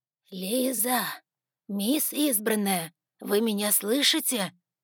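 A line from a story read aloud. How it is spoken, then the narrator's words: Weak hoarse rasp. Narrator (Russian): с трудом просипела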